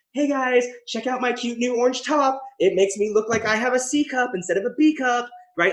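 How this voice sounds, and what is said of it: Fast social media influencer voice. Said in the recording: “That was like a really good impression. ... Did that really fast.”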